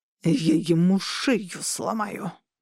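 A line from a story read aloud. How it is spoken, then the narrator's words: Huge man's growl. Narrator (Russian): прорычал огромный Атракар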